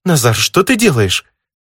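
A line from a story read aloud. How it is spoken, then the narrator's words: Agitated, indignant exclamation. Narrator (Russian): Немного взбудораженным, но все-таки больше возмущенным голосом воскликнула Ниса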